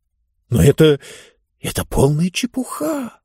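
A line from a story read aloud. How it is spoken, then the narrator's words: Uncertain mutter. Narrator (Russian): неуверенно пробормотал Финг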